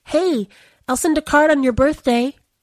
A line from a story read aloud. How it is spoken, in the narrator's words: yelled after her, because she couldn't think of what else to say